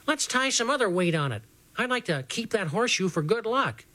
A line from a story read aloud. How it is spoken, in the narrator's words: Dragonfly piped up and said